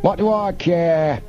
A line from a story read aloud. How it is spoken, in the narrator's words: Snapman shouted